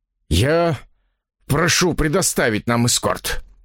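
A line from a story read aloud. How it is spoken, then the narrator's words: Forced, strained. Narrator (Russian): выдавил я из себя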